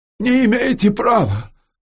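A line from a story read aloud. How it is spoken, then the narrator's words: Cracked cry. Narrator (Russian): надтреснуто вскрикнул Федор Кондратьевич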